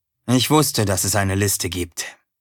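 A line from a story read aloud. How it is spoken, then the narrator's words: Plain. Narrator (German): sagte Erik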